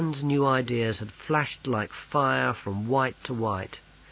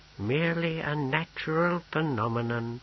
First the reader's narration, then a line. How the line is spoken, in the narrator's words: murmured Pismire